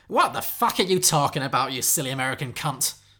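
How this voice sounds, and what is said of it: Poor put-on Cockney accent. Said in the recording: “That was a terrible Cockney accent. ... It's weird I can't do Cockney.”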